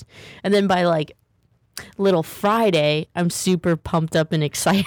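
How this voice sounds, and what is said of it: Perky, upbeat voice. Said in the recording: “I can hear it in your voice. You're so perky.”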